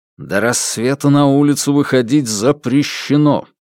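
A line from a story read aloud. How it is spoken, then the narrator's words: Through clenched teeth. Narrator (Russian): процедил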